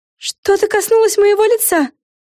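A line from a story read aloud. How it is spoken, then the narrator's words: Sudden cry. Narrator (Russian): внезапно вскрикнула Флафанора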